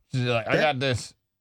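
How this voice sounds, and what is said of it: Suddenly deep voice. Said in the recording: “her voice got all deep”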